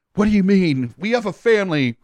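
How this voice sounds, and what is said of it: Toni Collette impression. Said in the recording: “great Toni Collette impression. Yeah. Really solid.”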